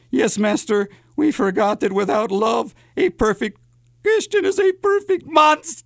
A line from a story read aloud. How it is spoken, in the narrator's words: Igor whimpered